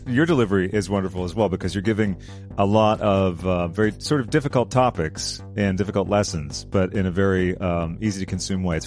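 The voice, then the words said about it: Distinct radio-style voice. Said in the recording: “You have such a distinct, like, almost like radio voice.”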